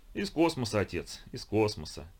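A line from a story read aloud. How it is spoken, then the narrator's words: Cheerful reply. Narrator (Russian): весело отозвался Кусаинов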